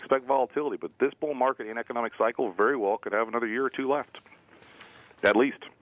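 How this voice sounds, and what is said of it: American Southern accent. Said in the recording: “your southern accent”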